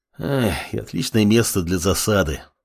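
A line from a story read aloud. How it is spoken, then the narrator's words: Sighing. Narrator (Russian): вздохнул командующий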